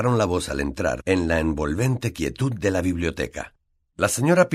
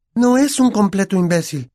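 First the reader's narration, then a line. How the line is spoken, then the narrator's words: Shrieking. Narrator (Spanish): chilló Hermione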